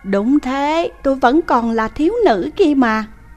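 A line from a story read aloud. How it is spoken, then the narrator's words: Smiling woman. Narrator (Vietnamese): Người phụ nữ mỉm cười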